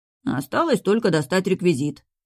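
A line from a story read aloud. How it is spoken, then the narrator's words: Chubby man's grumble. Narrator (Russian): проворчал пухляш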